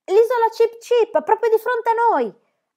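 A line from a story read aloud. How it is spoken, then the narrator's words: Shouted. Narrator (Italian): aveva gridato Pippi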